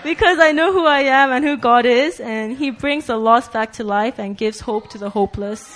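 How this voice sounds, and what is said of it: Togolese accent. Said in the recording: “her accent is a Togolese accent, similar to Jisoo”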